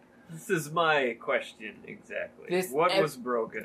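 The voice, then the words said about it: Slight put-on Russian accent. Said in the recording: “Are you turning Russian? ... You're starting to sound a little Russian.”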